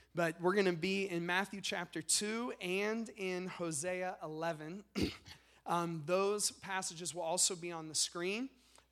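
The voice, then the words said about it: Strained, struggling voice. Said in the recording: “You can hear my voice is struggling a little bit this morning. I've been fighting a cold”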